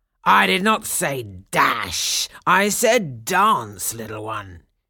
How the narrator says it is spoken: growled

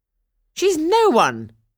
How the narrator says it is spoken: cried the stepmother

